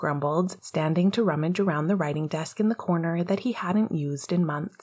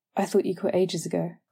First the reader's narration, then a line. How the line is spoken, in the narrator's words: Lily said, her words admonishing but her tone understanding